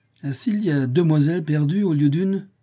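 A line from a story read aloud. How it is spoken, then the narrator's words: Laughing. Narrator (French): fit en riant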